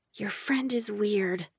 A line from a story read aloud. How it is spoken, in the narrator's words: Waylay whispered